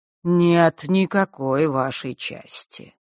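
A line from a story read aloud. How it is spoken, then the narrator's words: Calm objection. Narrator (Russian): спокойно возразила Хронимар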